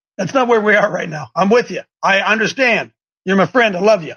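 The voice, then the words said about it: Mexican accent. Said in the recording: “who's that Mexican coming in with that funny accent?”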